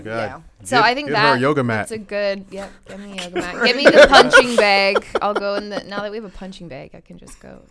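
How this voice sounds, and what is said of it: Accent, pronounces 'bag' like 'bog'. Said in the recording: “I love your accent... when you correct it and you're like, bog, is that what we sound like?... it sounds like you're saying B-E-G”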